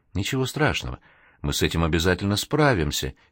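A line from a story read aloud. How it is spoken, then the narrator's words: Soft whisper. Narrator (Russian): тихо шептала она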